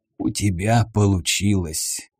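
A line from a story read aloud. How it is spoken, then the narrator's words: Hoarse voice. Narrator (Russian): хриплый голос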